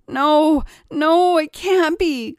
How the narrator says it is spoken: cried Paul

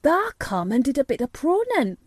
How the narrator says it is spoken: cried Dickon

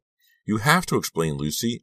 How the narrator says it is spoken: repeated in a trembling voice

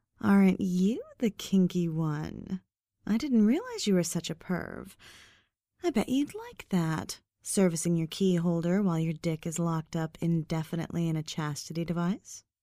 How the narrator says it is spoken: In a teasing tone, she responded

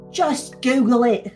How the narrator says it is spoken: spat out

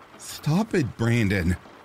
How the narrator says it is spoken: pleaded

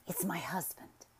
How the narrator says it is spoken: she whispered

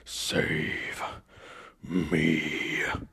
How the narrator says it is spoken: he growled lowly, hardly audible

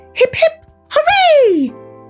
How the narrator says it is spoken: They cried

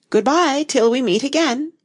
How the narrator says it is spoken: she said as cheerfully as she could

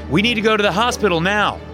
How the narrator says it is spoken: I yelled up to Brianna

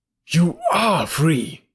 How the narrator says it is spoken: he cried

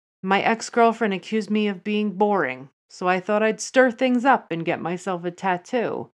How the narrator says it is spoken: Finn laughed and told her

